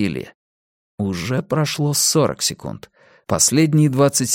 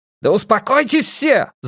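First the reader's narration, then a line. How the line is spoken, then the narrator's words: Yelled. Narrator (Russian): заорал Эрик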